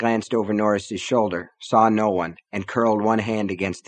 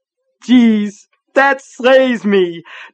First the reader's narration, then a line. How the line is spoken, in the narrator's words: Norris said, still laughing